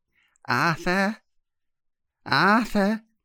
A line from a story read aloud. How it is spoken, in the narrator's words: whispered an inexpressively peevish, rasping voice